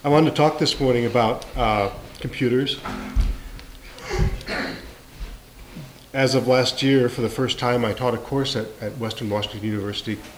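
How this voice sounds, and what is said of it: Congested, stuffy-sounding voice. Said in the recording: “And I have a cold,”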